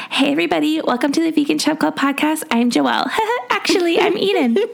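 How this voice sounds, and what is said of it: Impression of her co-host. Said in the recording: “my impression of you”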